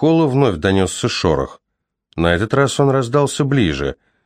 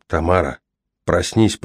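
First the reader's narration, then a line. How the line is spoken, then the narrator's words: Whispered. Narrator (Russian): прошептал Кол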